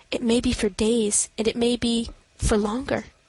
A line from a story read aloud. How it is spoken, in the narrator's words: I murmured